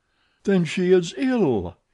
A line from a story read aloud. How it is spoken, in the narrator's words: he cried